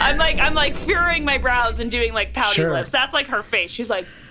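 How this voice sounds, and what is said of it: Usual voice. Nothing is said of it.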